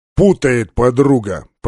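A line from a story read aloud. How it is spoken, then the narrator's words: Casual deep bass. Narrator (Russian): пробасил Полубой, как ни в чем не бывало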